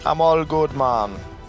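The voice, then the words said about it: Put-on Jamaican accent. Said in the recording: “a really Jamaican accent.”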